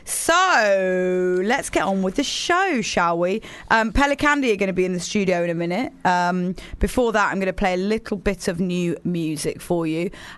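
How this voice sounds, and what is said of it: Slightly hoarse voice. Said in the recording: “my voice is a bit hoarse.”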